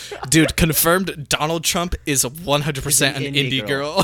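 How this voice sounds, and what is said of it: Usual voice. Nothing is said of it.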